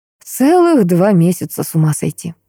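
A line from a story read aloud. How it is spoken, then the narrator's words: Tender. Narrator (Russian): проговорил ласково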